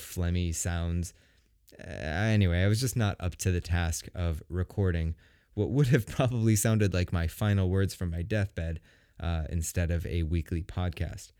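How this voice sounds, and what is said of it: Deep, raw, sick-sounding voice. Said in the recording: “I've never sounded more like a real man in my life ... I've never had such a really deep, beautiful voice like I have right now ... I have this like really wonderful deep voice, because my throat is essentially raw”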